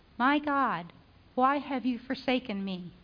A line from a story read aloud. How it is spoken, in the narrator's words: cried